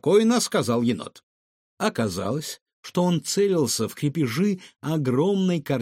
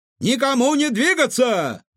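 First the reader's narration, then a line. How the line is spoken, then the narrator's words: Several voices shouting. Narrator (Russian): закричали они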